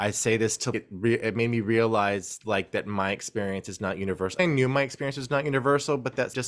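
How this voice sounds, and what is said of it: Usual voice. Nothing is said of it.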